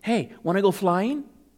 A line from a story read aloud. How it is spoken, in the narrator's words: said in a cheery voice